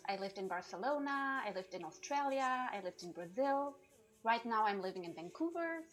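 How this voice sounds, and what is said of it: German accent. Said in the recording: “my accent is from Germany”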